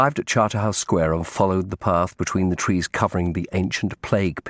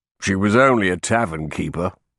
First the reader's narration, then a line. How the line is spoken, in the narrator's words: Sir Thomas grunted